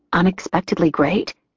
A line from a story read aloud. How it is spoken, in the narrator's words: I whispered